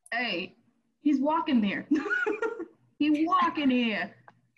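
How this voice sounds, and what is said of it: Put-on New York accent. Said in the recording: “I like the New York accent”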